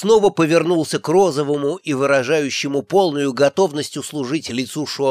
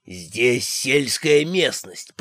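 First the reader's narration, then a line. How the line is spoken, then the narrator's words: Hissed. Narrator (Russian): прошипел он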